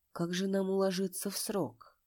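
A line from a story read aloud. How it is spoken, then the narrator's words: Quiet. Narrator (Russian): он тихо произнес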